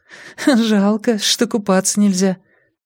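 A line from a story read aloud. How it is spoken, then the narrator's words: Nervous giggle. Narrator (Russian): Вера сказала, нервно хихикнув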